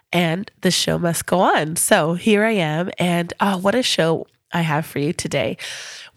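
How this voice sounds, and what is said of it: Congested voice from a head cold. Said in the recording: “you'll have to excuse my voice today. I woke up with a bit of a head cold”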